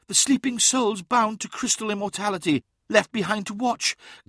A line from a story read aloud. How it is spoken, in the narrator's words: gasped Uthisar